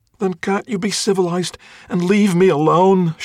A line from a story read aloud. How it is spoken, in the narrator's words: She pleaded